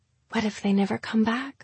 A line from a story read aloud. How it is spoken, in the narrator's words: Calliope asked, so quietly Gemma nearly missed it